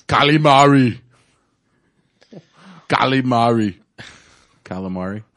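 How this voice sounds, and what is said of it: Bad put-on Austrian accent. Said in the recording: “saying calamari in a bad, ... bad Austrian accent. ... Austrian accent.”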